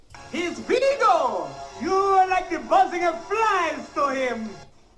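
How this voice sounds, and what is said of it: High-pitched villain character voice. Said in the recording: “He's Vigo! He's got a high voice.”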